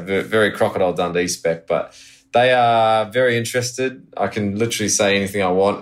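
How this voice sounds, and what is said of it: New Zealand accent. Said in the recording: “everyone goes, oh, where are you from, Australia or something like that? And because it's just my accent ... I'm actually born in New Zealand ... true Kiwi at heart”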